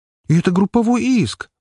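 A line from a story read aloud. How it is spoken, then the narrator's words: Exclamation. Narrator (Russian): воскликнула она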